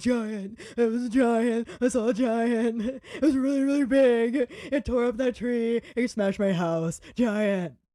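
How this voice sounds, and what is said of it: Impression of scared muggles. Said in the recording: “my impression of scared muggles”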